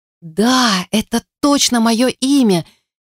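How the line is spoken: Moaned in silence. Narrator (Russian): Его словно простонали в тишине

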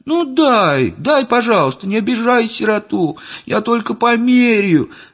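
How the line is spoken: Child's plaintive tearful whine. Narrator (Russian): жалобно заныл малыш, размазывая по щекам мгновенно брызнувшие слезы

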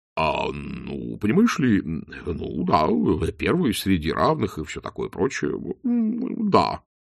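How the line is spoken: Mumbling. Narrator (Russian): промямлил Чудакулли

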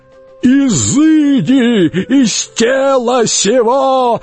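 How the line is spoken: Screamed. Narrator (Russian): завопил Шарлей

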